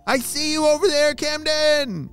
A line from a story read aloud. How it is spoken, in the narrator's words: he shouted